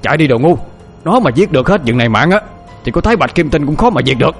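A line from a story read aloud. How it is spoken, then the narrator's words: Frantic old man's shout. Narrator (Vietnamese): Lão mau nghe hắn nói như vậy thì hét trống lên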